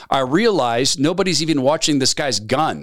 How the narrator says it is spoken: La Starza said

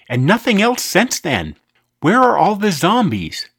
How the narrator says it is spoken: exclaimed

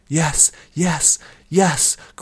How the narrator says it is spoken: cried Nuthea jubilantly

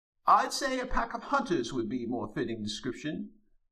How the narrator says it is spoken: Francis piped in

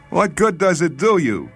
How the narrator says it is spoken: he cried to Laspierre

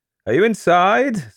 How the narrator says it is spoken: Said Basil laughingly

